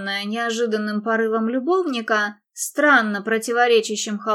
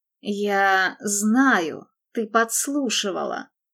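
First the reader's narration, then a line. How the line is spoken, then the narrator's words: Muttering, suppressed rage. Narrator (Russian): пробормотал он, подавляя неуемное желание стиснуть горло Дебби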